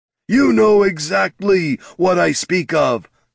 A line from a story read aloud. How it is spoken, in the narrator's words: snarled Darak